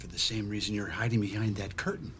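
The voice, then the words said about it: Whispering. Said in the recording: “Why are you whispering? ... I'm whispering”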